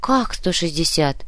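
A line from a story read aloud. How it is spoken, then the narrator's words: Breathless exhale. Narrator (Russian): выдохнула Вероника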